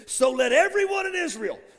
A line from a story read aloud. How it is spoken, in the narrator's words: standing in front of multitudes, shouting